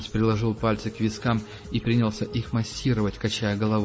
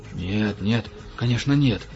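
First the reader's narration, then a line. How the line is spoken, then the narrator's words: Frightened mumbling. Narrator (Russian): испуганно забормотал Франц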